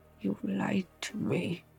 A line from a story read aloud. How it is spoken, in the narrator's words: he growled